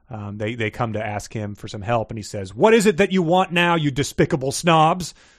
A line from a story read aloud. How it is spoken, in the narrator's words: He asked angrily